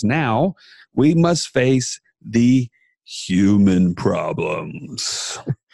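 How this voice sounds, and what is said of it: Deep, dramatic voice for effect. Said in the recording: “You said that with a deep voice. ... that's for effect”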